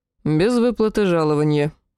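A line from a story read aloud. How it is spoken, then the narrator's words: Muttering again. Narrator (Russian): снова пробурчал Сахарель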